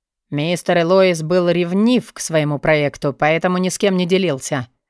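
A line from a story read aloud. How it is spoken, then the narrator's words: Plain. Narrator (Russian): сказал Пегий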